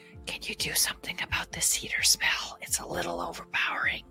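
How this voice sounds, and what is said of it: Whispered under the breath. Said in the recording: “whisper under my breath ... Why are we whispering?”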